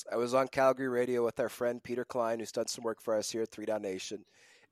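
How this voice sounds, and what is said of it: Sick-sounding voice. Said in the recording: “yes, I'm sick. You can obviously hear it in my voice. ... I'm a little under the weather right now.”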